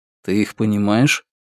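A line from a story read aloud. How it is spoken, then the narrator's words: Quiet question, foreign language. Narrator (Russian): на языке Раксура негромко спросил у Раскола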